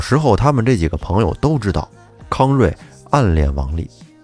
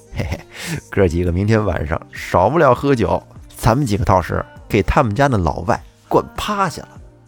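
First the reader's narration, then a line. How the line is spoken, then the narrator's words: Sly smirking. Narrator (Chinese): 康瑞是一脸贱笑地说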